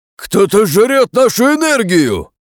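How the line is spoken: Shouted, losing control. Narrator (Russian): крикнул, потеряв над собой контроль, один из военачальников

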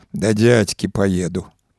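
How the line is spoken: Male mutter. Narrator (Belarusian): прамармытаў

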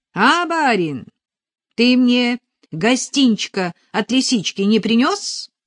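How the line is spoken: Loud ringing voice. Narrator (Russian): Звонкий голос прозвучал так громко

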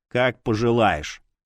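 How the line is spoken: Calm. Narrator (Russian): спокойно ответил я

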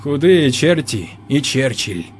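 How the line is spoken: Tired smiling reply. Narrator (Russian): устало улыбнувшись, ответил Ионников

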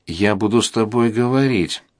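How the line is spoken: Mutter. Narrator (Russian): пробормотал он

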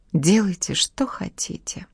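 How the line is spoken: Whisper. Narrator (Russian): прошептала она

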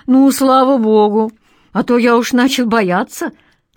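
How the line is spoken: Relieved exhale. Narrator (Russian): с облегчением выдохнул Даня

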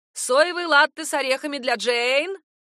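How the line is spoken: Repeated shouting. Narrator (Russian): Бористе приходится 3 раза выкрикнуть

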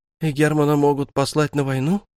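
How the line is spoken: Frightened speech. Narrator (Russian): испуганно произнесла Барби

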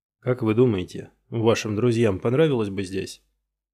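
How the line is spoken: Plain question. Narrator (Russian): спросил

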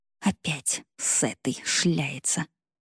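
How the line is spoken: Whisper. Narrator (Russian): шептала Мария Викторовна

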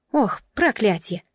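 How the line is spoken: Exclamation. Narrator (Russian): воскликнула Джемма

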